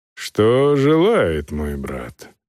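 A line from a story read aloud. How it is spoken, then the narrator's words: Sighing. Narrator (Russian): вздохнул архиепископ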